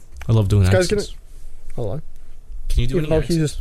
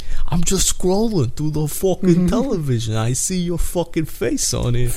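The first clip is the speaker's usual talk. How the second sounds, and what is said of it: Put-on old New York accent. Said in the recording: “I'm trying to sound like your dad. ... So I'm just doing an old New York accent.”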